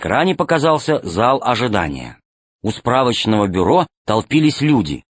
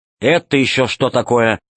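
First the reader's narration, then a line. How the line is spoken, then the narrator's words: Stern question. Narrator (Russian): строго спросил Полосков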